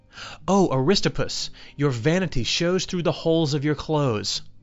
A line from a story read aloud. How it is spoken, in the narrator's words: When Socrates saw him arrive at his house, he exclaimed